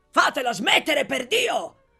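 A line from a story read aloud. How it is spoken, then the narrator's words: Exasperated shout. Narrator (Italian): gridò esasperato l'onorevole Bottecchiari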